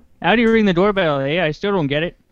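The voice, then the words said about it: Fairly good put-on Canadian accent. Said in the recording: “That's not a bad Canadian accent.”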